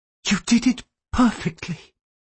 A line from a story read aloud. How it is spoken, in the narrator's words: she whispered, her sadness overwhelming her